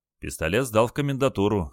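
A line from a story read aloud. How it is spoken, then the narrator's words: Calm reply. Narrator (Russian): спокойно ответил Олег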